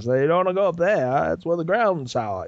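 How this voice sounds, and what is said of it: Affected Maine accent, Fred Gwynne impression. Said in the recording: “he was doing the voice of Fred Gwynn from Pet Sematary ... He's doing that really affected Maine accent.”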